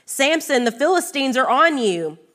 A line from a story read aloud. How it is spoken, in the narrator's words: she called out to him